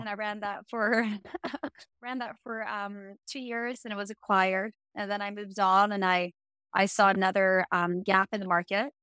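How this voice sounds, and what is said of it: Swedish accent. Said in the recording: “I'm from Sweden. So that's a weird accent”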